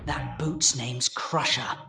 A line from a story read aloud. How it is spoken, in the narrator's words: the Christmas pig whispered in Jack's ear